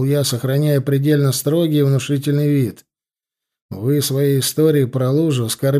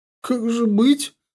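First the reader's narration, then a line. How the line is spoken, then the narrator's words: Forced out with difficulty. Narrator (Russian): смогла выдавить из себя, наконец, Изольда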